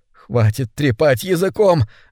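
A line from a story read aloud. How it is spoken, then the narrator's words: Strained, forced out. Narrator (Russian): выдавил из себя мистер Бенедикт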